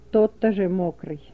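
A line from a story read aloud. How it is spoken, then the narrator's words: Commanding whisper. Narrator (Russian): властно прошептал Гнилой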